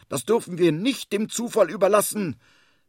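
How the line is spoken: Indignant call. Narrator (German): ruft er empört

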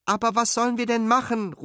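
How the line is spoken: Desperate call. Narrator (German): ruft Fine verzweifelt

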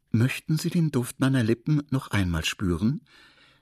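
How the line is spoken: Calm princess asking. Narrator (German): die Prinzessin ganz ruhig fragte

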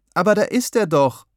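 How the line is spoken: Calling out. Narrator (German): rief ich

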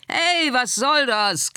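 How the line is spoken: Shrieking moths. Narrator (German): kreischten die Motten

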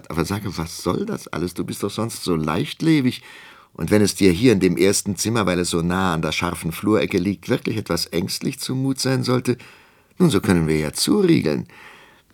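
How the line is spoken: Laughing. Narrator (German): lachte Armgard

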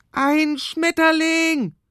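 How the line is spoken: Shouting. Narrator (German): schreit Michi

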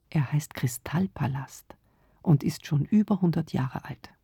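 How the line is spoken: Quiet. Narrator (German): sagte leise

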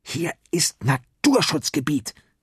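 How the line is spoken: Snarling hiss. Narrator (German): fauchte Torben

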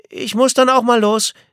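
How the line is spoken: Called after, somewhat bewildered. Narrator (German): rief sie Nico etwas ratlos hinterher

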